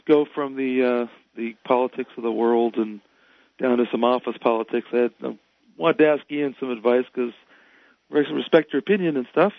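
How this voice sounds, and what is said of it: Hoarse, weak voice. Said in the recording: “I apologize in advance for my voice. I'm getting over the cold... I keep losing my voice.”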